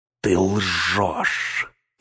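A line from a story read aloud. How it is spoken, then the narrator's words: Hissing. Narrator (Russian): прошипел Гнилоуст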